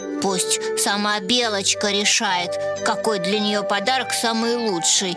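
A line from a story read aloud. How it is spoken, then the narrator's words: Grumbling bear cub. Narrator (Russian): проворчал медвежонок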